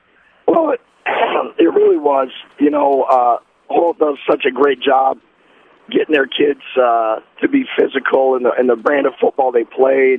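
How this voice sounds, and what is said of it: Strained, worn-out voice. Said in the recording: “I don't know if your voice is better than mine or worse than mine, but you have a better excuse ... I'm struggling a little bit today”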